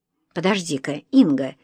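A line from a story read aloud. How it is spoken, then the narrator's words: Interrupting. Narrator (Russian): Вадим перебил сестру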